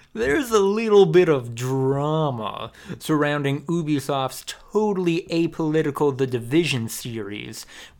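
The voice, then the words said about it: Sarcastic voice. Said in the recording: “put on my sarcasm voice ... sarcasm voice”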